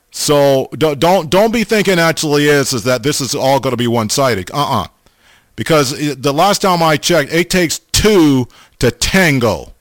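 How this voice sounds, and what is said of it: Southern American accent. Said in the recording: “Boy, am I getting that southern, Brother Paul, I'm getting that southern accent going again. That's like three times I said the word y'all.”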